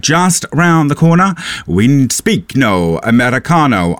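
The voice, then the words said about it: Put-on comedic accent. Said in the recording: “I know I said that I wouldn't do the accent again, but here we are.”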